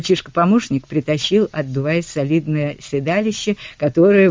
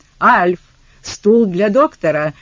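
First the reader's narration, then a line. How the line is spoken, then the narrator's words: Yelled. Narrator (Russian): заорал Клем Смит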